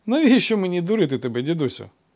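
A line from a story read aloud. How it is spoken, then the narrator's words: Laughing beggar. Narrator (Ukrainian): засміявся жебрак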